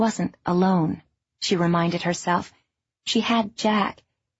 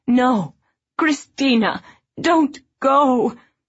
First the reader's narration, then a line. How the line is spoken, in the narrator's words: her mother screaming